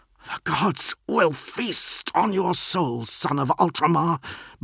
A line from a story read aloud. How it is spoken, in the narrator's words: Marduk hissed